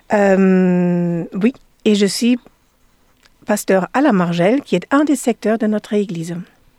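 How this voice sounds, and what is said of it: French with Danish-German accent. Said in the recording (French): “Vous entendez à mon accent, j'imagine bien que je ne suis pas française, je suis danoise allemande”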